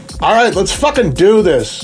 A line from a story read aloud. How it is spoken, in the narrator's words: Aris shouted